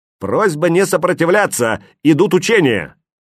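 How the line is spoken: Loud, brisk announcement. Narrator (Russian): громко и бодро, как в цирке, объявил вошедшим Веня

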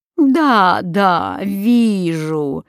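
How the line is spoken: Reply with evil laugh. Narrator (Russian): ответила Малевола и засмеялась злым смехом

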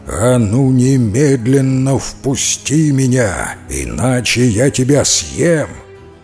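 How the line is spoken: Indignant devil's growl. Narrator (Russian): Дьявол возмутился и зарычал

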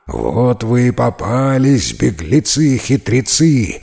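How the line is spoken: Creature growling. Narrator (Russian): зарычал драк

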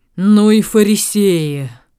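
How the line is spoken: Grumbling. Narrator (Russian): проворчал сеньор Мамбретти

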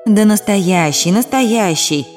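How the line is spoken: Sighing. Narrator (Russian): вздохнул Даниил

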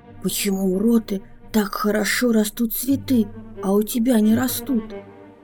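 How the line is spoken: Snake whispering in ear. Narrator (Russian): Насытившись, первая змея шептала ей на ухо

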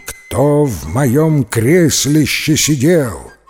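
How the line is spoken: Huge bear's loud, rough roar. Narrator (Russian): взревел большой здоровенный медведище своим громким, грубым, страшным голосищем

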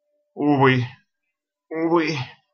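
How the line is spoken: Wretched hoarse rasp. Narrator (Russian): прохрипел несчастный

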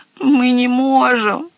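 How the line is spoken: Whimpering. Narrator (Russian): захныкал Зепп

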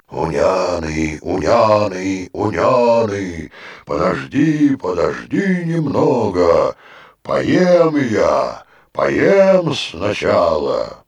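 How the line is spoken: Hoarse ogre voice from tent. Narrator (Russian): В ответ из чума раздался хриплый голос людоеда

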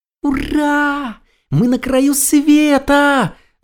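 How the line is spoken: Yelling. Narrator (Russian): заорал ежик

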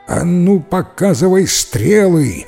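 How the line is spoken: Menacing shout. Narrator (Russian): грозно прокричал ему повелитель

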